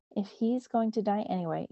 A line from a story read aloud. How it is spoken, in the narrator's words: Ishtab said